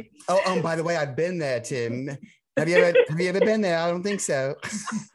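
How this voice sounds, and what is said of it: Imperfect northern English accent. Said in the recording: “You haven't quite got the northern accent down yet”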